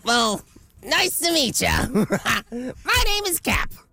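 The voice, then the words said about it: Distinct puppet character voice. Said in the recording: “put on different voices for each of the characters ... that's one. Give me a second voice”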